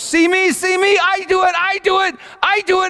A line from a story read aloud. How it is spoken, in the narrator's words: Elizabeth was standing there just screaming at the top of her lungs